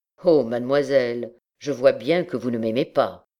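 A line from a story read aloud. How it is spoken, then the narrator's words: Cold tone. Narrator (French): dit d'un ton froid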